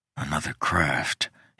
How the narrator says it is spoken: he whispered

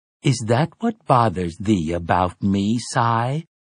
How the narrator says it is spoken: he inquired sweetly

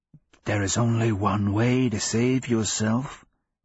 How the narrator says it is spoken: it rasps

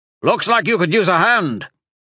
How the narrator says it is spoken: Tolan shouted

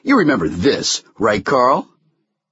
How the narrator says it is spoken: Carl barked

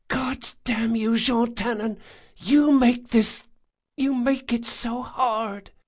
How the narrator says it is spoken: whispered in his ear

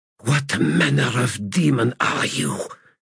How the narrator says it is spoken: she demanded in a ragged hiss

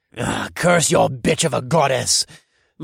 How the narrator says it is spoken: my attacker snarled

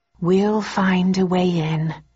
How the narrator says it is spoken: I said slowly

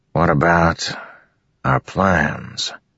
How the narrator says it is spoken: Teft asked quietly

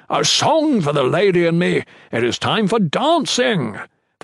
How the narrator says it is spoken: shouted

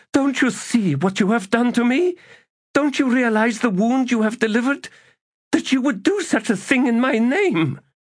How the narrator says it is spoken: gasped

